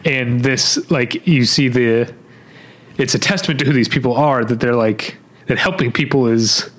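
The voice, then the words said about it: Emotional, choked-up voice. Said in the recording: “I'm getting emotional ... my allergies made my voice itch”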